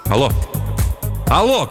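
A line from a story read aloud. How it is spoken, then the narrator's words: Shout. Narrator (Russian): крикнул Жером Боск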